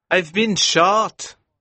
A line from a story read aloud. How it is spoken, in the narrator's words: he cried